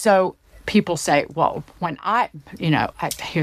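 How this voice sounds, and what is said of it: Usual voice. Nothing is said of it.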